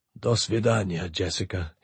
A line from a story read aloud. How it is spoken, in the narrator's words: he breathed